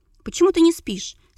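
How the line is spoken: Plain. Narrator (Russian): спросила

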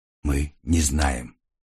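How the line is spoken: Quiet reply. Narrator (Russian): так же тихо ответил Триго

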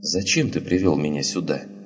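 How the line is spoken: Mumbled. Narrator (Russian): она пробормотала

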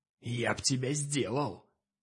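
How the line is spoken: Hissed nearby. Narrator (Russian): прошипели рядом

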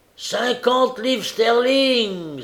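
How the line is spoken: Old man exclaiming. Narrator (French): s'écria un vieux monsieur

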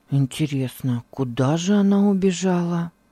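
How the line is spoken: Muttering. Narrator (Russian): пробормотал он

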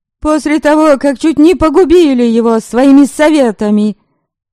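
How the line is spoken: Shouted. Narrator (Russian): Крикнула Ярисава

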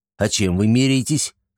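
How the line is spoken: Plain. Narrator (Russian): спросил Антон

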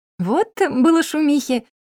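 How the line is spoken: Relaxed giggle. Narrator (Russian): хихикнула, совсем уже расслабившись

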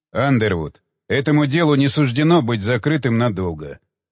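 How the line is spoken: Calm. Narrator (Russian): спокойно произнес Уилсон

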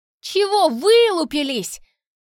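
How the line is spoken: Furious yell. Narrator (Russian): заорал он в бешенстве

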